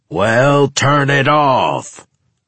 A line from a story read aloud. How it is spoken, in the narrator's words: roared Old Silver